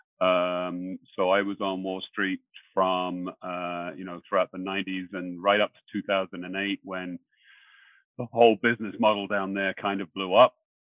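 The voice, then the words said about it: British accent. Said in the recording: “As you may have picked up on the accent, I came over from the UK”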